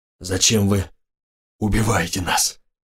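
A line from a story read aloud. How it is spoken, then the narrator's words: Hoarse, jerky. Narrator (Russian): Голос у него хриплый, а слова вырываются из горла толчками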